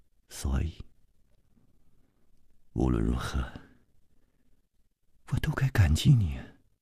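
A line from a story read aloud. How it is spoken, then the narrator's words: Soft, tender. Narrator (Chinese): 柔声接着说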